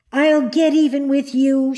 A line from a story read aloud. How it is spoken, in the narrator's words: she cried